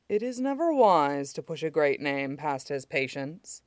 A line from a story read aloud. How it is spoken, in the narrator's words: Shidan murmured